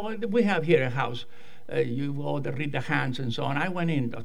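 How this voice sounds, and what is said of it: Speaker's own noticeable accent. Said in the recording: “my accent gave me away”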